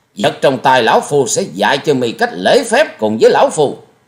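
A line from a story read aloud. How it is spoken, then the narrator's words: Enraged loud shout. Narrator (Vietnamese): Bị đối phương khinh miệt, Thiết Diện Âm Ty như lửa cháy thêm dầu, quát to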